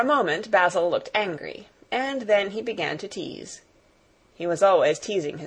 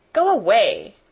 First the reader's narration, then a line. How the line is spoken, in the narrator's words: cried Mary